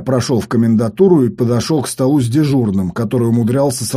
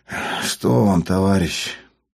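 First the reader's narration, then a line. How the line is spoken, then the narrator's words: Asked wearily. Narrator (Russian): Тот, устало потирая лоб, спросил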